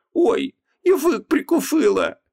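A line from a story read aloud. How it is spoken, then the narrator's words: Moan. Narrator (Russian): простонала она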